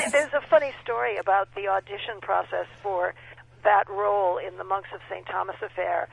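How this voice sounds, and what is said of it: Usual voice. Nothing is said of it.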